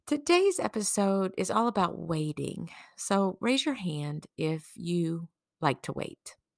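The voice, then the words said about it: Slightly funky, off-sounding voice. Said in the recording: “my voice sounds a little funky. That's because I'm just getting over a cold.”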